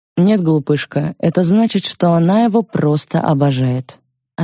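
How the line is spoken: Plain. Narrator (Russian): ответил отец

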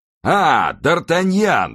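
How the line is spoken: Exclaiming. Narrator (Russian): воскликнул

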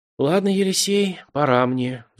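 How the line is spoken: Sighing. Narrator (Russian): вздохнув, контрразведчик

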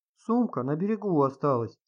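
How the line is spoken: Complaining. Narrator (Russian): пожаловалась Рита

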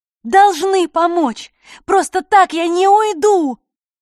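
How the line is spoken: Loud yelling. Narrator (Russian): буквально орала

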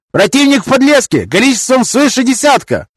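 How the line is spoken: Shouted from a distance. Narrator (Russian): прокричали с донжона

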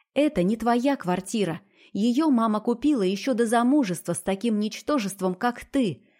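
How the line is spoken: Snapping retort. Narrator (Russian): огрызнулась

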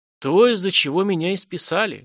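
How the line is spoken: Sad wry laugh. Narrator (Russian): грустно усмехнулся Влад

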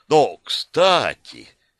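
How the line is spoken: Enthusiastic exclamation. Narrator (Russian): с воодушевлением воскликнул он

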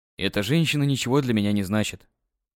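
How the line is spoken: Calm. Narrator (Russian): спокойно произнес я

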